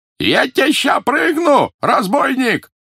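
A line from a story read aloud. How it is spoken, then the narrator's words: Yelling. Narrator (Russian): заорал Ванька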